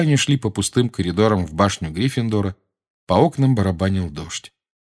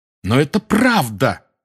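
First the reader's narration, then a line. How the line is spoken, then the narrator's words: Exclaiming. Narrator (Russian): воскликнул Гарри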